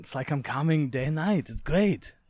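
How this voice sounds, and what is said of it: Arnold Schwarzenegger impression. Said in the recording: “you seen the Arnold one? ... that's my impression.”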